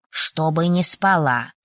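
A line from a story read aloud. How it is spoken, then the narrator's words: Snort. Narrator (Russian): фыркнул страж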